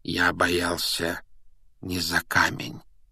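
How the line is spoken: Soft correction. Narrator (Russian): мягко поправил его Дамблдор

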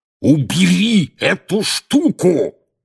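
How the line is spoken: Roar right in ear. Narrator (Russian): проревел дядя Вернон прямо в ухо Гарри

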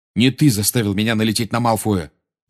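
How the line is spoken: Angry. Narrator (Russian): сердито ответил Гарри

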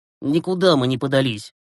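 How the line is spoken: Muttering. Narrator (Russian): буркнул Глеб

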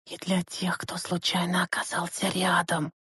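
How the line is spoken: Hissing. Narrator (Russian): прошипела Лена ему в спину

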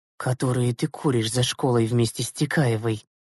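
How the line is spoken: Merciless whisper. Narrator (Russian): безжалостно прошептала Зюзина

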